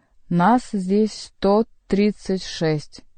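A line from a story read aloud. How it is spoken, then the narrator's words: Rough bass proclamation. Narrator (Russian): грубым басом провозгласил монах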